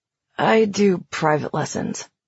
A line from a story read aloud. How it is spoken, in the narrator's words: he said in a mumble, as if he didn't want to admit that